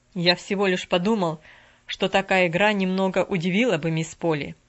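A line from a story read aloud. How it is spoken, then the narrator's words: Cold reply. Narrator (Russian): холодно отозвался он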